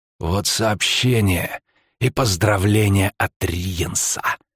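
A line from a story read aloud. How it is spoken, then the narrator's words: Hoarse wheeze. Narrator (Russian): просипел высокий полуэльф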